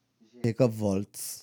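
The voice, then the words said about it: Put-on German accent. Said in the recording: “German accent”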